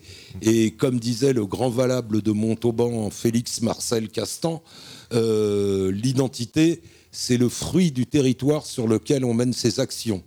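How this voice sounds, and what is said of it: Parisian French accent. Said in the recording (French): “malgré mon accent que j'ai gardé... jamais avoir pris l'accent d'ici... malgré mon accent parisien”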